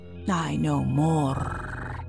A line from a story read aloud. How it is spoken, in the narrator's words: said, purring gently